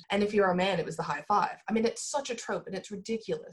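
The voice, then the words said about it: American accent. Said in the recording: “by my accent, I'm American”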